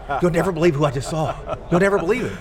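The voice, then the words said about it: Crazed, excited imitation of another person. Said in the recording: “Why do you give me that voice? You make me sound like I'm a little crazed.”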